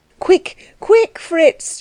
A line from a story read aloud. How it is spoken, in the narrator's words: she cried